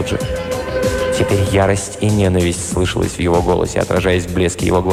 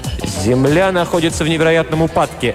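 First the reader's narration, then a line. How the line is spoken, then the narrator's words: Sharp speech. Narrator (Russian): резко сказал Фелджи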